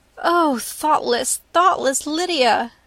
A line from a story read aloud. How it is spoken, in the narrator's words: cried Elizabeth